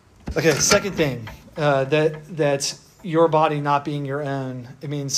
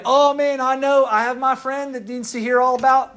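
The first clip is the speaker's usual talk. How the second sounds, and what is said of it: Put-on Southern accent. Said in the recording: “why do I get a Southern accent when I think about it? None of you have this Southern accent”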